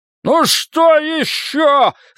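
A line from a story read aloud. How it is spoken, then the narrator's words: Yelling. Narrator (Russian): заорал Мэнни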